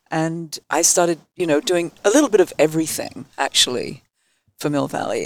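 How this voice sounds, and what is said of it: English accent. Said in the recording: “my English accent”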